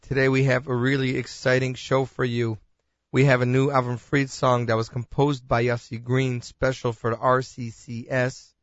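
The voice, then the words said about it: Hoarse, strained voice. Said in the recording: “I had a bad case of bronchitis. As you can hear, my voice is still not where it should be.”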